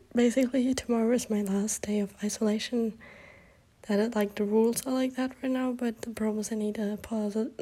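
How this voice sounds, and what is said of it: Sick, strained voice. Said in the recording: “if you can hear it at my voice ... I don't know how loud I can talk with this voice ... my sexy, sick voice ... I have COVID”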